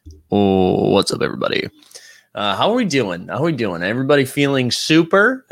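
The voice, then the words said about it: Deep morning voice. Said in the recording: “I do have the deep voice this morning”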